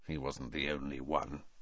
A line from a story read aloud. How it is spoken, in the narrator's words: said Sirius bitterly